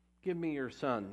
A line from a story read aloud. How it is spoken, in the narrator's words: Elijah replied